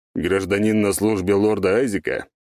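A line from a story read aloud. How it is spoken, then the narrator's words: Displeased deep bass. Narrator (Russian): недовольно пробасил Вивис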